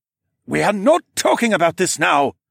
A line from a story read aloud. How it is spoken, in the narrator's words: barked